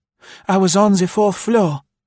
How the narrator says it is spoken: panted Marie

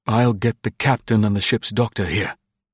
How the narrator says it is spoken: said the deck officer hoarsely

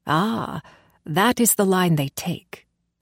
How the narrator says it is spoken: drawled Stefan

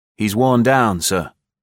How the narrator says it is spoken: said Scott

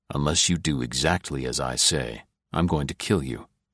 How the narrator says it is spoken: he said softly

